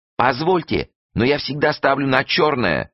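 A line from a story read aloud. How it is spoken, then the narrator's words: Yell from behind. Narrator (Russian): завопил сзади Юшка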